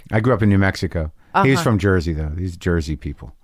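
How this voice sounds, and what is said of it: New York or Jersey accent. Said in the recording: “this accent that you have ... I feel as if it's a New York accent ... people think it's Jersey”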